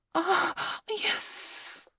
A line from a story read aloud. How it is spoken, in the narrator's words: I hissed again